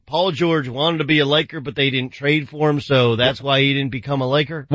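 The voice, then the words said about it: Put-on Southern accent. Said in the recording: “Why's it got to be a Southern accent?”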